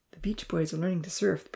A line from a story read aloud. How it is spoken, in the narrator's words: the professor whispered